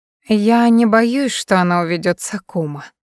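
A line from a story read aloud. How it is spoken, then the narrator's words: Velvety tender cooing. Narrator (Russian): бархатным нежным голосом проворковала Лин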